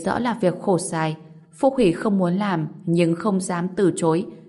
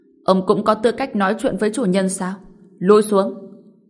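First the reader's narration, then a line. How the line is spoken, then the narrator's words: Cold, stern speech. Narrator (Vietnamese): Vị trưởng lão quản lý Đỉnh Vô Tường sầm mặt, lạnh lùng nói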